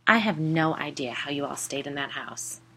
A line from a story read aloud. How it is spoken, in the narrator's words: I said